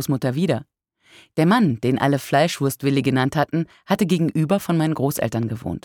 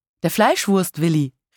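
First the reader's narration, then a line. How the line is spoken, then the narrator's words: Calling out again. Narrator (German): rief nochmal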